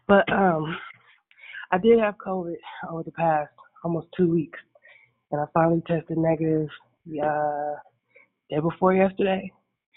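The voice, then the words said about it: Groggy voice. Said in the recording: “My voice is still a little groggy.”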